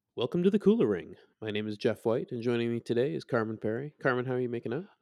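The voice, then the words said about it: Deep, bassy, congested voice. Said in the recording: “my radio voice is particularly good today because I have the worst cold I've had in like a year ... So it can get you down to a different level of bass and baritone.”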